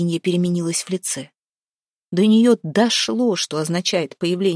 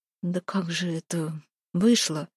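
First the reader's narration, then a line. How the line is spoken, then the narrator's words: Uncertain mutter. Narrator (Russian): Пробормотала она, еще не зная, верить ли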